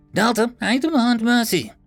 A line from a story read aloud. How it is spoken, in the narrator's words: Maharia screeched